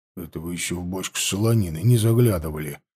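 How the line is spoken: Gloomy grumble. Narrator (Russian): хмуро буркнул Тимофей

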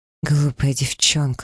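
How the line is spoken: Breathed out. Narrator (Russian): выдохнул он

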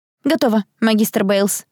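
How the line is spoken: Squeaked. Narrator (Russian): пискнула я

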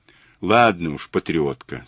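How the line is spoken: Plain. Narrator (Russian): сказал Мазур

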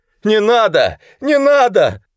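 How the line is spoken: Hoarse high false voice, shout. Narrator (Russian): Тома как-то прохрипел необычайно высоким фальшивым голосом и вдруг крикнул

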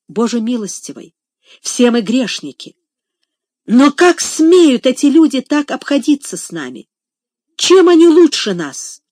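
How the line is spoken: Deeply agitated exclamation. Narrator (Russian): с глубоким волнением воскликнула

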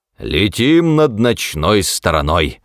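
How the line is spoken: Solemn proclamation. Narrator (Russian): торжественно провозгласил он

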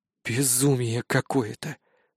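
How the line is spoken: Muttered. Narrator (Russian): пробормотал я

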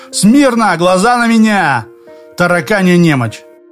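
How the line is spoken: Barked drill command. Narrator (Russian): гаркнуть по-гепартовски

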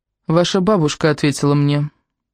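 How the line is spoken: Icy, frightening. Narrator (Russian): сказала она этим пугающим ледяным тоном

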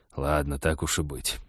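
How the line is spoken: Reluctant, through clenched teeth. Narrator (Russian): нехотя процедил он

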